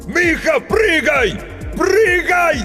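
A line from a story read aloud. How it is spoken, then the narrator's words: Desperate last-strength shout. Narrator (Russian): Из последних сил закричал Грицко, уже понимая, что поздно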